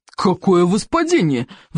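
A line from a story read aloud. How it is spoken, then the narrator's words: Roar. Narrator (Russian): взревел стоик обширный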